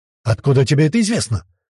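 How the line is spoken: Hoarse question. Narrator (Russian): хрипло спросил Джамили

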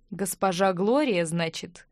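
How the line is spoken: Pleased grunt. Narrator (Russian): Капрал довольно хмыкнул

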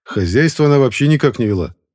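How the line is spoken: Scoffing. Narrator (Russian): хмыкнул

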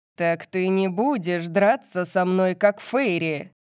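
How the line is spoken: Growl. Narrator (Russian): Зарычал Сет

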